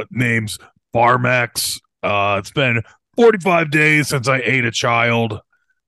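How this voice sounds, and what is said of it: Monster character voice. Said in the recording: “here's my imitation of a Monster Rehab ... that sounds like a monster name”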